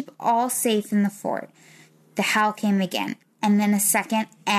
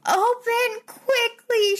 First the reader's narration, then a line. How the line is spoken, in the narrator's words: she screamed